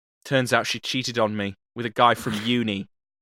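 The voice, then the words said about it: Put-on accent. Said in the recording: “I'm going to do an accent ... That's where I did the accent.”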